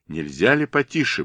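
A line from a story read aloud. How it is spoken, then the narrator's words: Gruff mutter, commander. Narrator (Russian): буркнул командир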